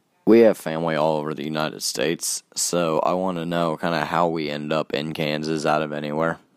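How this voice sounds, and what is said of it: Southern US accent. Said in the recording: “not a lot of people have my accent ... nobody else in my family other than the ones from the South have it”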